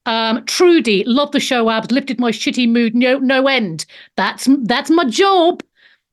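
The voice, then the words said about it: Australian accent. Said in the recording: “We in Australia don't have an accent. I think that's probably not true ... it's like a little bit, goes a little bit kowoy, fosh and chops now and again”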